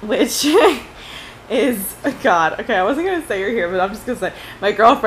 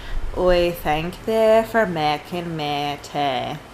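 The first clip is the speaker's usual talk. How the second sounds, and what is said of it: Put-on low rural British accent. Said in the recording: “I had the country ... kind of like Irish or Scottish, but it isn't quite that. It's a bit lower ... my accent”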